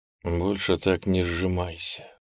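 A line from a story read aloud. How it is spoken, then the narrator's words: Whispered. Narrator (Russian): прошептал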